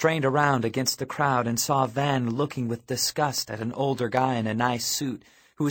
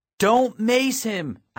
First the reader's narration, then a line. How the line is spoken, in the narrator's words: shouted over the din